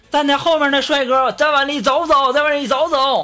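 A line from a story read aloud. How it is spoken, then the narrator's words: Shouting. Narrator (Chinese): 司机 开始喊了，说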